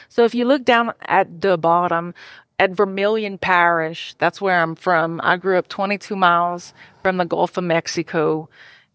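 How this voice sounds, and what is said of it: Put-on Cajun accent. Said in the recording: “now I'm going to start talking with a Cajun accent since I'm talking about Cajun stuff.”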